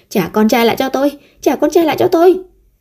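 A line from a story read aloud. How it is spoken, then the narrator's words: Loud scream. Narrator (Vietnamese): Vân Như Ý hét to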